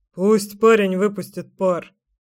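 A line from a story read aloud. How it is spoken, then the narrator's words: Amused snort, father. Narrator (Russian): хмыкнул батя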